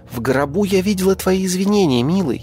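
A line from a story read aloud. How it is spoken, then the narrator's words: Sweet cooing. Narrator (Russian): Любезно проворковала деятельная вамп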